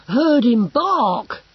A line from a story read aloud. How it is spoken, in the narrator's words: he gasped